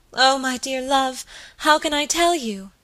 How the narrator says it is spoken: cried my lady

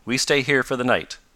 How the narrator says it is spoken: said Jacinto

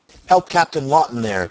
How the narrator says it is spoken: cried Mason

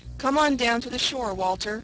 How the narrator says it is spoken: cried Jem

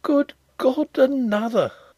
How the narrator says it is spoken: he exclaimed faintly

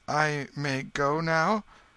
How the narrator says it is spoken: He hesitated, a little confused, timidly, saying

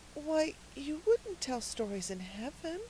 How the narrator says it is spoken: said Cecily in a very timid voice

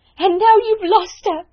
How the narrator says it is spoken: cried wildly

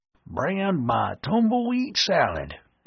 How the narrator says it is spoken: Chow grumbled

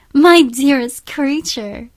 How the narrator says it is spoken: cried Isabella

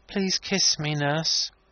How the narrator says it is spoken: After an interval, he said in a placid voice

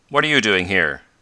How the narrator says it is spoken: Professor Hylop asked sharply

